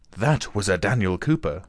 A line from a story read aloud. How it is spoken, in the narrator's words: exclaimed Marya Dmitrievna, puffing heavily